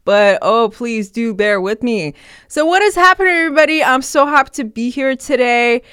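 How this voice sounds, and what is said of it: Nasal, congested voice. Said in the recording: “my voice is probably sounding super nasally ... My nose has been plugged for the past week”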